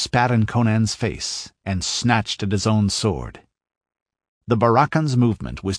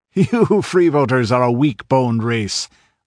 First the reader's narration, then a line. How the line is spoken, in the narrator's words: laughed the pirate